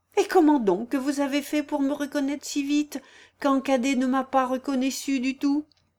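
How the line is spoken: Exclaimed. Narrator (French): s'écria Claudie

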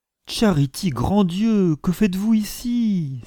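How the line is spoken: Exclaiming. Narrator (French): s'écria alors Mr

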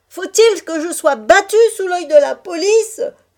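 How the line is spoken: Carter shouting. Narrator (French): cria le charretier

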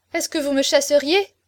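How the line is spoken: Exclaiming, shocked. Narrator (French): s'écria la pauvre fille

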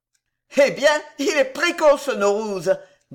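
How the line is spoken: Plain. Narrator (French): dit Poupardin

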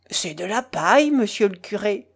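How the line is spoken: Cantor's thick voice. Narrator (French): le chantre, d'une voix grasse

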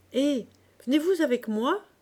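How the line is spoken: Shouting. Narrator (French): cria-t-il

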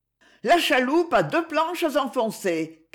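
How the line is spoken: Sailor's shout. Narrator (French): cria un marin

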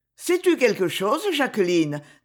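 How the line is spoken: Brisk, quick. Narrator (French): dit ma tante vivement

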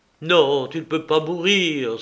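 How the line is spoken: Cry. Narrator (French): s'écria Luigi

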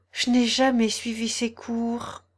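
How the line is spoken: Sighing. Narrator (French): dit la fausse tortue avec un soupir

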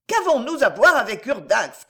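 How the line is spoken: Shouting. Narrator (French): criait l'autre

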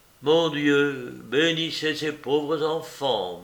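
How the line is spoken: Murmur. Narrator (French): murmura Paphnus

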